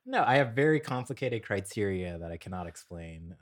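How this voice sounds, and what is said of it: Sarcastic tone. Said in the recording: “that's me being sarcastic.”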